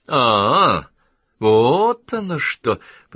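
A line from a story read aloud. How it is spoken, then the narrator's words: Drawn-out drawl. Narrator (Russian): протянул мистер Квестинг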